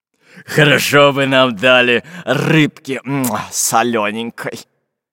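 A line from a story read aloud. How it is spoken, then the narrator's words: Pirate grumbling. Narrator (Russian): пробурчал пират Буль-Буль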